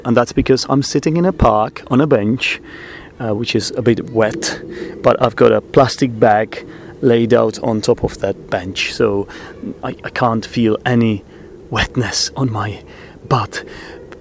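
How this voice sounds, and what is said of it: Quiet, subdued speaking voice. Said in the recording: “I'm going to be speaking in this kind of voice, so it might sound a bit quieter than something that you're used to ... I don't want to be too loud”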